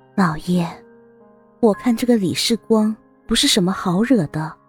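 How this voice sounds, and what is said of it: Quiet, hushed speaking voice. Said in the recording (Chinese): “新莲姨娘依偎在他的身边， 小声说道。”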